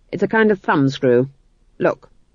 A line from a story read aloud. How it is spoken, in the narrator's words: said the king